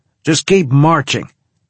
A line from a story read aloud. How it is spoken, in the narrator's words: he shouted